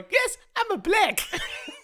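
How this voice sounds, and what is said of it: Exaggerated imitation of grandmother's accent. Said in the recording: “I love the accent as well... That's exactly how she sounds. It's maybe a little bit exaggerated.”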